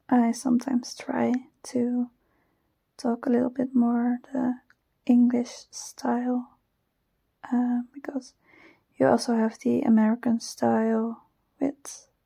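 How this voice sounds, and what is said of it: Dutch accent in English. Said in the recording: “my Dutch accent ... I don't always enjoy my Dutch accent.”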